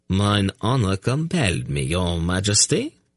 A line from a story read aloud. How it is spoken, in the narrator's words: Sir Embreg declared in a faltering voice